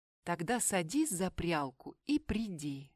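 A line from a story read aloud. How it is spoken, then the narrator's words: Plain. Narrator (Russian): говорит карлик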